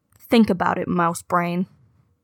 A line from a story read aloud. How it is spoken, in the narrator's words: her voice grows more affectionate as she says